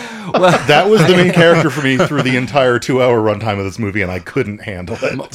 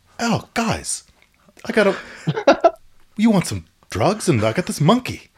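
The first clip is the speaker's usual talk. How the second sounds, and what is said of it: Imitates another person's voice. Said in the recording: “Kevin Dillon doing an impression of Dante from Grandma's Boy ... Kevin Dillon being like”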